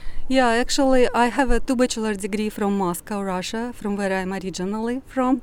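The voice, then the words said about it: Russian accent. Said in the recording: “You're speaking with a Russian accent”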